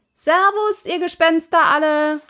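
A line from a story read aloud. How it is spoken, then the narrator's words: Called out. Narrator (German): rief Pippi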